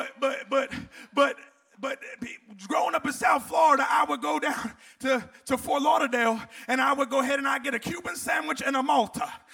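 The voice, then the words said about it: New Jersey accent with Southern tinge. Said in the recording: “that's not a South Florida accent. No, it's Jersey, then South Florida. Now I'm Tennessee, and I'm halfway back”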